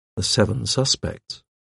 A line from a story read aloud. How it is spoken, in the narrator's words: I murmured